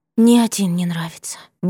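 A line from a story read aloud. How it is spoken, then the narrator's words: Wistful sigh. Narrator (Russian): выдохнула Наланта тоскливо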